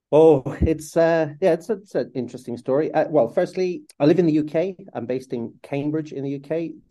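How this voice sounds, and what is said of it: Irish accent. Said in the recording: “The accent that your listeners will hear is Irish. I was born and grew up in Southern Ireland, County Cork.”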